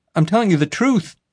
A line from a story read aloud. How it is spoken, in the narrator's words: pleaded